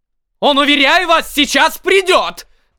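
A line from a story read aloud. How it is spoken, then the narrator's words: Loud alarmed bellow. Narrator (Russian): заорал я во все горло, желая дать знать о беспорядке за кулисы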